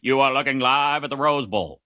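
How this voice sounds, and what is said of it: Bad Keith Jackson impression. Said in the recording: “terrible Keith Jackson impression”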